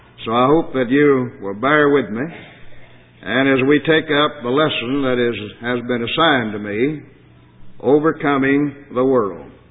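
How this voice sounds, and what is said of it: Very hoarse voice. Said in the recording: “My voice today is so hoarse that I can hardly speak.”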